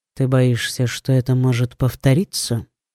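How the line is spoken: Plain. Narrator (Russian): спросил он

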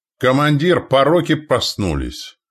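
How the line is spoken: Shout. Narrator (Russian): крикнул Тишила

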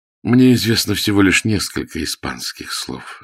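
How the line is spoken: Quiet. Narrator (Russian): сказал он тихо

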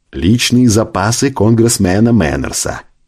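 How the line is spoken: Plain. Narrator (Russian): ответил кок

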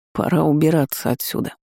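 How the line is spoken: Mumbled. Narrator (Russian): пробормотал Ноа

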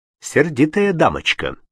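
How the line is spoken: Plain. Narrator (Russian): сказал Пауль охранникам

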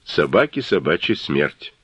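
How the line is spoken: Grumble. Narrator (Russian): Головня буркнул

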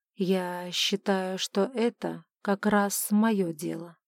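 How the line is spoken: Quiet remark. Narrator (Russian): тихо заметил герцог

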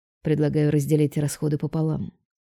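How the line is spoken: Plain. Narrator (Russian): говорит Роберто

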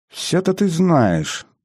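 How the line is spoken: Pleased mutter. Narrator (Russian): довольным голосом пробормотал тот

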